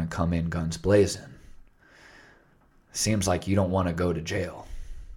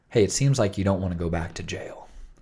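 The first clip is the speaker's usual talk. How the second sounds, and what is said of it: Low, smooth, soothing radio DJ voice. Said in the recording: “he takes a different tone of voice, kind of, you know, less authoritative ... that low FM DJ voice ... more soothing to listen to ... smooth talk, smooth jazz radio”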